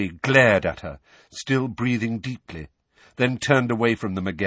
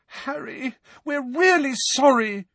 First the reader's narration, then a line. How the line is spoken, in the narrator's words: said Hermione desperately, her eyes now sparkling with tears